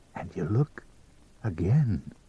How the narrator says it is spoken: he whispered

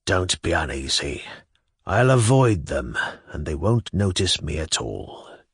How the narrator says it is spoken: Shigalyov declared in an impressive whisper

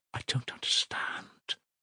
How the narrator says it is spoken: whispered Sonya

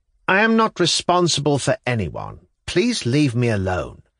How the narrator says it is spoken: answer to a stream of questions, pronounce sharply and distinctly

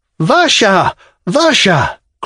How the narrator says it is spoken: cried Arkady, unable to restrain his tears

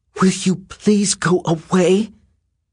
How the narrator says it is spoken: she said in a shaking voice

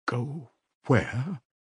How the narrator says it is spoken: asked Sonia timidly

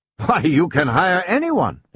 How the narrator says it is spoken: exclaimed his visitor in surprise

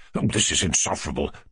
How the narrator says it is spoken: muttered the general

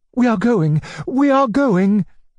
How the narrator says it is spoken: cried my uncle

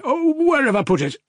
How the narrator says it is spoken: He cried

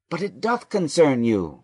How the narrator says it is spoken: Joseph eagerly cried

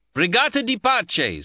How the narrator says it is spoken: shouted

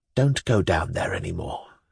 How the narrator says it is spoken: said Pavel, almost in a whisper, with every indication of humble entreaty

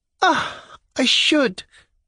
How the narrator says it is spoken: cried Mademoiselle Lebyadkin

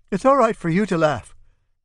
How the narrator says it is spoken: Bambo says excitedly

